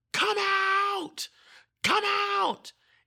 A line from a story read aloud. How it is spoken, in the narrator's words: I just start yelling